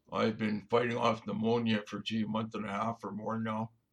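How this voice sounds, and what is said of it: Hoarse voice. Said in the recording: “my voice is quite hoarse ... hoarse voice and all”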